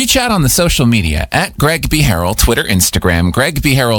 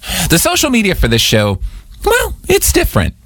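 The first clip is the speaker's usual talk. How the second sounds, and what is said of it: Voice goes very high-pitched. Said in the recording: “my voice went so high when I said, well,”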